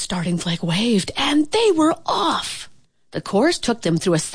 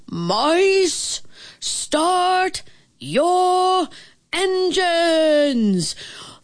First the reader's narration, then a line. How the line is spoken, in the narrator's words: a big, booming voice announced